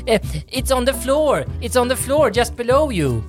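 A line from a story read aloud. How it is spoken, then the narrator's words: Calling out together. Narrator (Swedish): skulle vi där hemma då ropa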